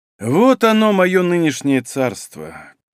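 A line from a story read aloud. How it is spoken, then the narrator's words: Somewhat sad. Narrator (Russian): как-то грустно сказал Лопарев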